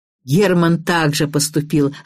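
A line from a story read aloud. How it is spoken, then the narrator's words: Laughing. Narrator (Russian): рассмеялся Аверьянов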